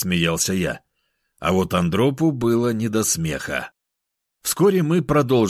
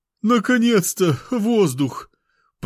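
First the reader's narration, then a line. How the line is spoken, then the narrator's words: Groaning fat man. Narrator (Russian): простонал толстяк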